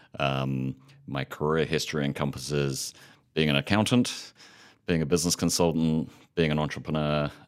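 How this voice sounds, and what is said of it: British accent. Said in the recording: “As you may be able to tell from the accent, I'm not a Montana native. Grew up in the UK”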